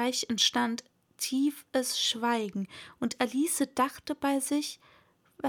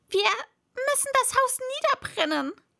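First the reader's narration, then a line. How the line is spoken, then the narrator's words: Called out. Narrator (German): rief das Kaninchen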